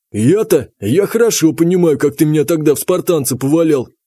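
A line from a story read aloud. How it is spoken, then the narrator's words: Snorting chuckle. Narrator (Russian): Танк хмыкнул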